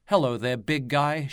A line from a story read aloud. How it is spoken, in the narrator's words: giggles